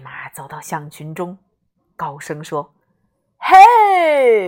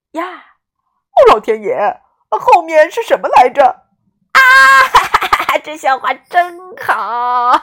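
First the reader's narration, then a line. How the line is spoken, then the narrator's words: Elephants laughing loudly. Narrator (Chinese): 大象们哈哈大笑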